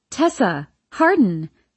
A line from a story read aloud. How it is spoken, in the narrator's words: Lillian exclaims, her smile bright